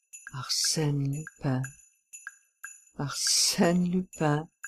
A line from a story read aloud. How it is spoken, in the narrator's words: he muttered